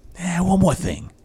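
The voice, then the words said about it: Columbo impression. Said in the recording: “I was going for Columbo ... That's not a bad impression either.”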